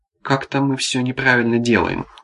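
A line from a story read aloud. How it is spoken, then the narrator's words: Tired. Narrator (Russian): устало заметил Арсений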